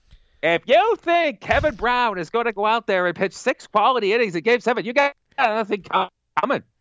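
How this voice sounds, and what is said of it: Mad Dog Russo impression, poorly done. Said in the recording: “my Mad Dog Russo impersonation. ... We're terrible, by the way.”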